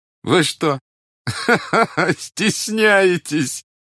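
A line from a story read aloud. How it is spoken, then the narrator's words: Laughing. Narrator (Russian): засмеялся князь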